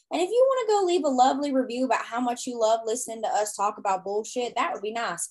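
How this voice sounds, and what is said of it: Strong southern accent. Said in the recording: “Your southern accent just came out real strong when you were saying that one.”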